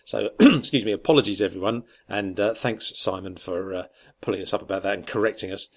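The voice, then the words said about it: Strained, failing voice. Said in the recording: “I think my voice is finally packing up”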